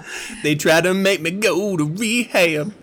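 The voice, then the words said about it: Sings imitating another person's voice. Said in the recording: “Amy Winehouse impersonation”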